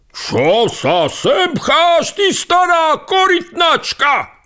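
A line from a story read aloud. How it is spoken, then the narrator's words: Fat rich man shouted. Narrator (Slovak): vykríkol v tom iný tučný a bohato odetý človek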